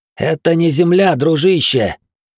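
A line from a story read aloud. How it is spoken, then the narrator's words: Near growl on last word. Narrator (Russian): Последнее слово Глорг едва не прорычал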